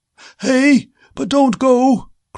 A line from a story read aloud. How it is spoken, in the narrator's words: cried the old man